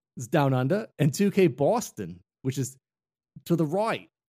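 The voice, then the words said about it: Attempted Boston accent sounding Australian. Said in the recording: “you said Boston with an Australian accent just then. I know you're trying to do a Boston accent.”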